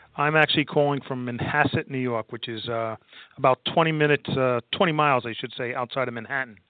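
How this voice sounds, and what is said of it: New York accent. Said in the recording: “I kind of detect your New York accent”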